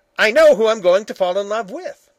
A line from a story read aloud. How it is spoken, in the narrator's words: said sharply